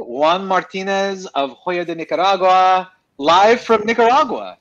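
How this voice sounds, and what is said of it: Rolled R's, put-on Spanish pronunciation. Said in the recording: “What was with the accent ... suddenly you rolled a couple R's all of a sudden.”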